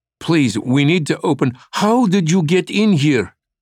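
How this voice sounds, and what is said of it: Thick Russian accent. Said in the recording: “The woman demanded in a thick Russian accent”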